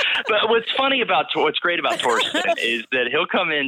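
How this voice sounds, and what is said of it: Usual voice. Nothing is said of it.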